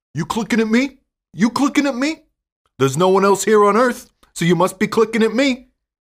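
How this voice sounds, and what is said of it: Imitates a movie character's voice. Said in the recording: “doing her best Travis Bickle impersonation.”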